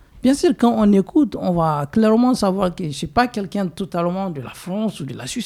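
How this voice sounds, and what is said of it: Non-native French accent. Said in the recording (French): “je ne suis pas né ici. Je n'ai pas le même accent français comme toi ... mon accent”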